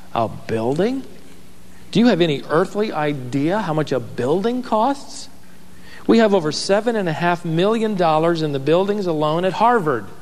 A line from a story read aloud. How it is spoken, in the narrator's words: exclaimed